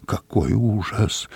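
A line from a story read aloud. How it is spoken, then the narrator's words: Muttering. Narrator (Russian): бормотал Дю Барнсток у меня за спиной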